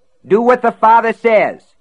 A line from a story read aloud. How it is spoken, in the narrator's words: he roared